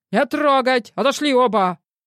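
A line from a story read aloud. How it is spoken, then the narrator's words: Simultaneous drowning shout. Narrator (Russian): Заглушая его, одновременно крикнули Илья и начальник службы безопасности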